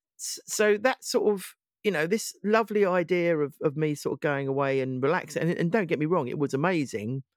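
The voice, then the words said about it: Congested voice from a cold. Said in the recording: “hear it in my voice, I'm still trying to get rid of the sort of cough and the sort of stuffiness of it.”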